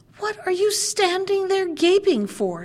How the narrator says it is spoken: screamed the dwarf, and his ashen gray face became scarlet with rage

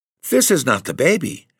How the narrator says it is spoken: she exclaimed in startled tones

